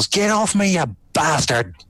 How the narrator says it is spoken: Loken just yells

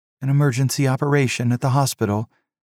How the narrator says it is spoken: she sighed

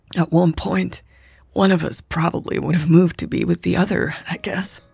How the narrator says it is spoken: Raven croaked

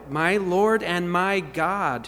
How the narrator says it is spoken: says

